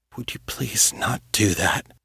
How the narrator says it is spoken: He asked, his voice soft and very hoarse

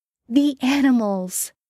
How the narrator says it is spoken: Jen says urgently

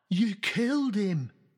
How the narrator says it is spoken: Hotpie gasped

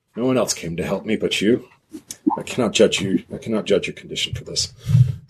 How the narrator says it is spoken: kind of bulks a bit, but then like sighs and goes

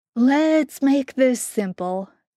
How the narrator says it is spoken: Jensen said, keeping his voice light

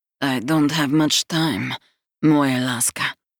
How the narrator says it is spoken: he murmurs, and the deep rumble of his tone

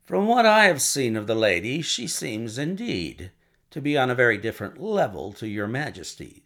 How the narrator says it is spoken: said Holmes coldly

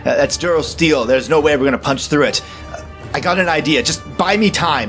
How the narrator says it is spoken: slams his fist against the controls and shouts

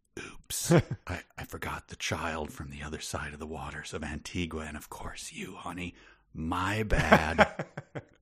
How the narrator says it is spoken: She whispered

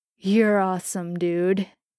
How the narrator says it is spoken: Jensen slurred

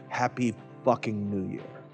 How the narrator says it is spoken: he muttered

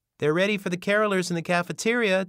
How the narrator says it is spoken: Denise called out

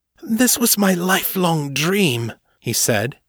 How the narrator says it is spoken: his tone pleading

